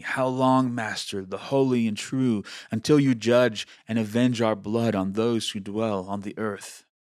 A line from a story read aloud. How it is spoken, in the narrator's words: They cried with a loud voice, saying